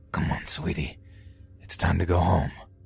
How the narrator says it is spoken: He says in a deep, raspy voice

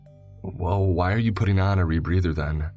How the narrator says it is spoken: I said calmly, but slightly more irritated

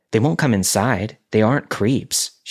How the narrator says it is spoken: she said

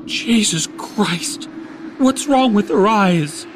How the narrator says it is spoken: Henry asked, his voice wavering

